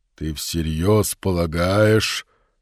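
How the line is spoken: Forced out. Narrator (Russian): выдавил он

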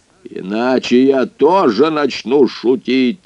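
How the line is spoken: Harsh bark. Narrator (Russian): рявкнул он

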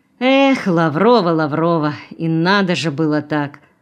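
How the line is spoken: Sighing. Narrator (Russian): вздохнул комендант

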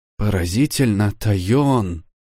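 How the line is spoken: Breathless exclamation. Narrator (Russian): выдохнула Урсула

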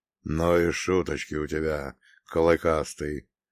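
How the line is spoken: Reproachful booming demon. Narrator (Russian): осуждающе прогудел демон

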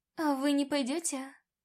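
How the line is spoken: Timid question. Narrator (Russian): робко спросила я

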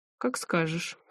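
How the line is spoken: Amused grunt. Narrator (Russian): хмыкнул Валера

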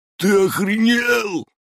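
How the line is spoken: Shriek. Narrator (Russian): завизжал один из торчков

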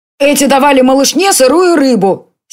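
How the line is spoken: Angry. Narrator (Russian): сердито сказал Конор

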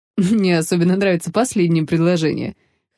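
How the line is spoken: Chuckling. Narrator (Russian): хохотнул

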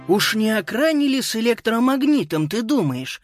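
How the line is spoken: Exclaimed. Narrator (Russian): воскликнул Боб

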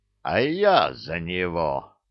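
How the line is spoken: Growled. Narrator (Russian): прорычал Илья

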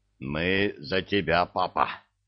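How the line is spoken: Hoarse wheeze, oaf. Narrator (Russian): просипел балбес

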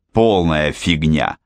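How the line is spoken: Irritated curt remark. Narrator (Russian): раздраженно бросил Фрэнк

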